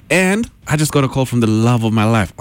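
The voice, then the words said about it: Excited, elated speaking voice. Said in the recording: “Oh, I'm so excited. You can tell from my voice, can't you?”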